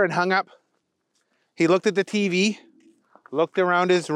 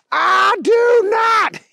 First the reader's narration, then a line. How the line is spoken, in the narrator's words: yelled Keith